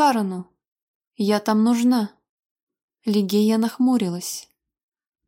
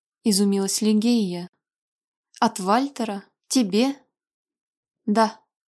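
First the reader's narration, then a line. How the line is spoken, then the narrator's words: Cold. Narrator (Russian): холодно ответила Алича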